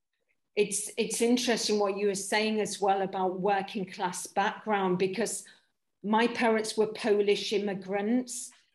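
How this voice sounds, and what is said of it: Accent sounding Welsh or Scouse. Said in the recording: “I've got this accent where a lot of casting directors think I'm Welsh or a Scouser or all kinds of things”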